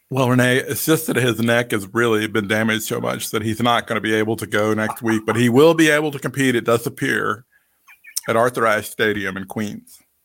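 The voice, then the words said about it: Imitates another person's voice. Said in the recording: “I'm going to now do my impression of the doctor.”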